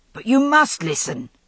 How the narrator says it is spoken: said Malia Grant urgently

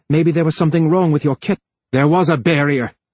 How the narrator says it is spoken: yelled Harlan

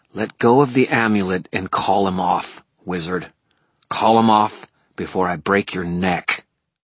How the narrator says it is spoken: A voice, a feminine contralto, growled

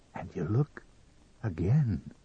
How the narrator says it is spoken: he whispered

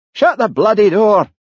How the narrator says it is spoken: shouted Jimmy

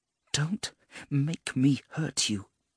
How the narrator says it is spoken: she breathed, her voice tight with fear

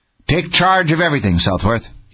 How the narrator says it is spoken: he snapped

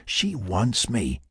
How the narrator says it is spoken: Mac whispered to his considerably less offensive cohort, Tony

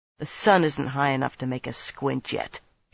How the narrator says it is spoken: she muttered

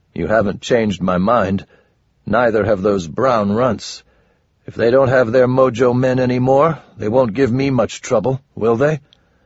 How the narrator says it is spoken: Goblin groaned

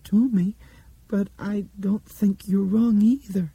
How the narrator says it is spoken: Dinah said in a small, wavery voice

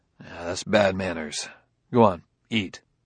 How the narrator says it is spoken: mumbled

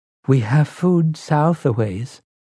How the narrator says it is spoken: Zalia said timidly

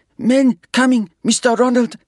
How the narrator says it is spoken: Vandy exclaimed

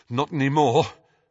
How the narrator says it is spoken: panted Harry

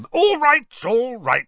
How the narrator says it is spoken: said Uncle Vernon loudly

